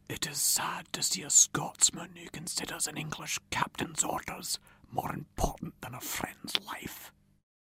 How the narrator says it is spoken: Rob Roy whispered to Ewan

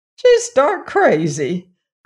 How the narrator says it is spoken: cried Aunt Em

